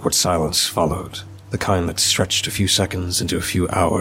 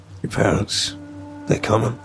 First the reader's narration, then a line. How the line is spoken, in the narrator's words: he asked in a calm, low voice